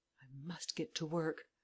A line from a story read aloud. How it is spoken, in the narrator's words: murmured Lupin